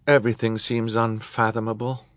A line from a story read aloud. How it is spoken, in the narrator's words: Violet said with a sigh